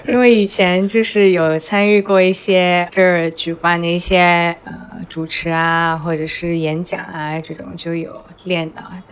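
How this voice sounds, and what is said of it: Soft Southeast Asian Chinese accent. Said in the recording (Chinese): “很好听啊 ... 绵绵软软的，是我对，是我心中印象中的那些啊，来自于南洋那些人都像你这样去讲话。”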